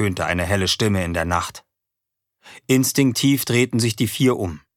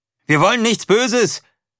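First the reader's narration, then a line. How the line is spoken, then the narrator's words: Male call. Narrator (German): rief er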